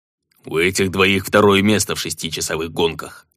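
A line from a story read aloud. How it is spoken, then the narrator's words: Gruff mutter, dwarf. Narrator (Russian): буркнул гном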